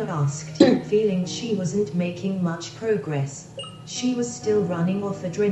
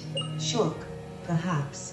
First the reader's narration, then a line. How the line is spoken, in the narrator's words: grunted